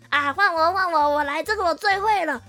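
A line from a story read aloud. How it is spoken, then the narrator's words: Loud eager voice. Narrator (Chinese): 小王子很大声的说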